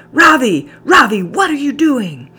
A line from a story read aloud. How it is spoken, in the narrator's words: Busuku was screaming